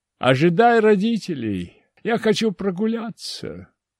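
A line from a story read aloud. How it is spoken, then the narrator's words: Smiling, cheerful command. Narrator (Russian): Широко улыбаясь, велел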